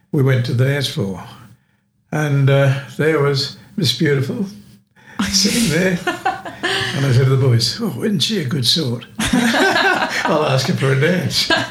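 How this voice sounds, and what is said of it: Australian accent. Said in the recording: “because you're Australian ... it was the Australian accent ... The accent”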